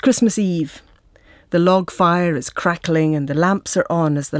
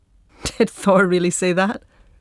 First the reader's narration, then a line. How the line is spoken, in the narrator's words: He laughs